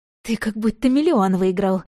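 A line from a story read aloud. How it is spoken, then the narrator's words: Forced out words. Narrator (Russian): выдавила я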